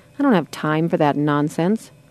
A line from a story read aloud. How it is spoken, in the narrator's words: muttered to himself